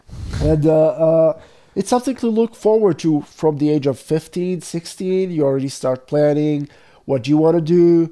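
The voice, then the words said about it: Non-native English accent. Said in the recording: “And by drifting, you mean drafting into the army. That's accent.”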